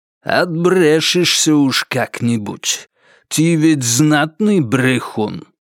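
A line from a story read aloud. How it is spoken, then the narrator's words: Angry, through teeth, accented. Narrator (Russian): Также сквозь зубы ответил Кайрат с усилившимся от злости кавказским акцентом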